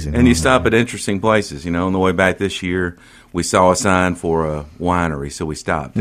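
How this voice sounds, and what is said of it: Southern American twang. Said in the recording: “You're from Mississippi, and I'm sure you don't notice the twang, but they probably notice your Southern twang.”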